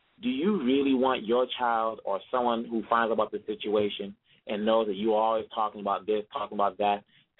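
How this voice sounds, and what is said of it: Congolese accent. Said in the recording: “I'm saying this as a Congolese, even though some people hear my accent and think I'm not from here”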